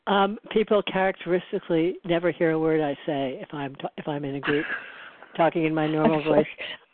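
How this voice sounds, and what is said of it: Soft-spoken, quiet voice. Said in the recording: “You talk soft.”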